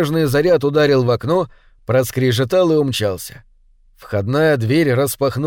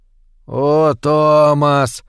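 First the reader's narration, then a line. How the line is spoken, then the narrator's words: Groaning. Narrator (Russian): простонал Чарли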